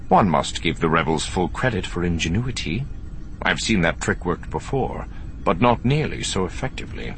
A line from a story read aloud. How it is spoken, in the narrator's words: the Grand Admiral said, his voice strangely calm